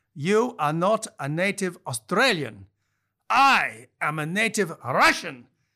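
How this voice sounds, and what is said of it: Put-on Russian accent. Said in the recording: “I'm trying to do justice to his accent”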